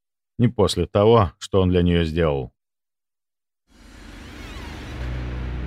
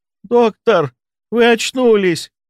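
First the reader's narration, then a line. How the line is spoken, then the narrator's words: Exclamation. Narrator (Russian): воскликнула Воронцова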